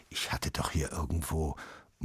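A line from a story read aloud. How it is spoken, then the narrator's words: Murmured. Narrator (German): murmelte Papa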